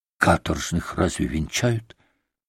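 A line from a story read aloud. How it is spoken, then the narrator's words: Pleading, repeated. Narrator (Russian): повторил он в третий раз молящим голосом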